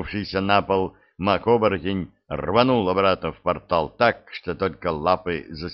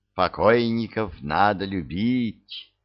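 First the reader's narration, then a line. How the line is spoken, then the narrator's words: Tender whisper. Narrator (Russian): нежно прошептал Марганелл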